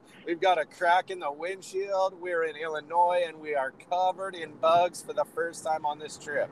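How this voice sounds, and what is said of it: Crumbly, rough, worn-out voice. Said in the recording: “how amazing my voice sounds ... got a little got a little crumble crumble going on there”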